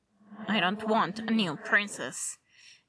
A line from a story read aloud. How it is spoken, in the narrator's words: Bruce muttered